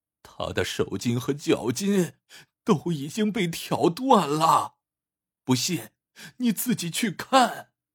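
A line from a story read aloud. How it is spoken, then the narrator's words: Near tears. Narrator (Chinese): 管家几乎带了哭腔说道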